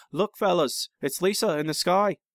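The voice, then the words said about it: Put-on Beatles-style accent. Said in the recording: “I guess I need a better Beatles accent... That's still not good... That's pretty good... That's better.”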